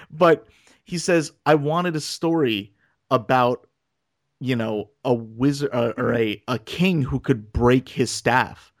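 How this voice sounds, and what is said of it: Choked-up, emotional voice. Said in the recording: “I get choked up again.”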